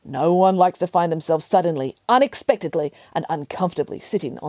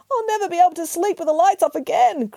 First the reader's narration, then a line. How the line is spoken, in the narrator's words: cried Charles